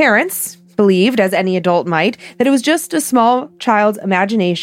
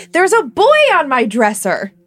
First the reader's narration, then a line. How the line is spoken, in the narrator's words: went running into my parents' room yelling